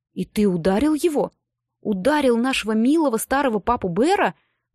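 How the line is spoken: Angry outburst. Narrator (Russian): воскликнул Нед и в припадке гнева

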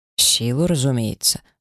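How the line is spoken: Ghost snorting. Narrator (Russian): фыркнул призрак

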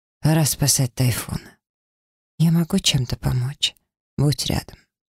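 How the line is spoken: Quiet. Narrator (Russian): тихо произнес

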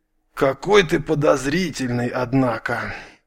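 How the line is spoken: Weary, big man. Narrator (Russian): устало произнес здоровяк

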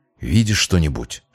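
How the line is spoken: Whisper. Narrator (Russian): шепнул он

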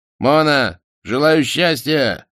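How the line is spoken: Touching shout from afar. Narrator (Russian): крикнул с берега трогательный Романов

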